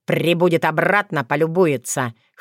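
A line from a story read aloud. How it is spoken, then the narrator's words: Snorting smirk. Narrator (Russian): хмыкнул Вран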